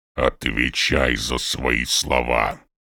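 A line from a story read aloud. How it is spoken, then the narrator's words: Grumbling. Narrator (Russian): проворчал он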